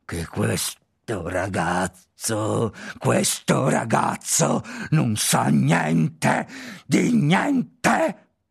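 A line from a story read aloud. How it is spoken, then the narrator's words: Snarling. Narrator (Italian): gli ringhiò in faccia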